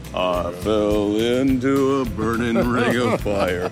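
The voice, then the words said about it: Deep low singing voice. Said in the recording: “It's the real deep voice. ... you can do that and go low.”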